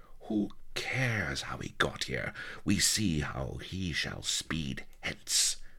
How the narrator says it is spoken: sneered Sheba

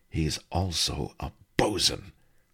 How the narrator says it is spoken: Hakuka Joe answered hotly

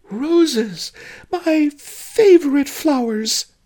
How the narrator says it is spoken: she squealed

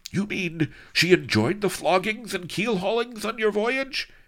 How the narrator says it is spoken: cried Dunlardo

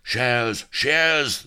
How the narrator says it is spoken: they roared

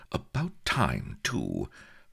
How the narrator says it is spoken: with a muttered

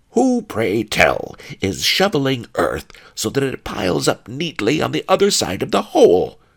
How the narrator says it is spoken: snarled pawnbroker Fang

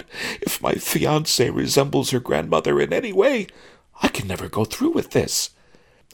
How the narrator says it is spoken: sobbed

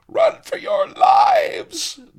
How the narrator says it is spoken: they screamed

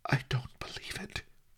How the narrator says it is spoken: she whispered

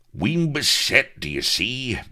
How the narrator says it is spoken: bellowed Firebeard

